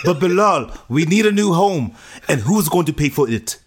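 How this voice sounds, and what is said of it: Put-on African accent. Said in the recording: “That's an African accent.”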